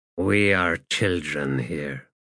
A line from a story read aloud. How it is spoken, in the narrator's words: he muttered